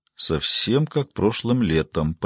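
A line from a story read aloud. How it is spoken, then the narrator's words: Muttered. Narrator (Russian): пробормотал Маркет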